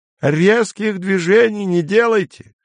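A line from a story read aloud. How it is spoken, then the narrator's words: Shouting after someone. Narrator (Russian): крикнул Изя вслед Дэнни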